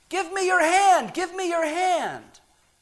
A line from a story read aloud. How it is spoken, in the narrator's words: each of them urgently shouting to him